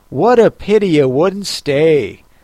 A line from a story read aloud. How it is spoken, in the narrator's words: sighed the lory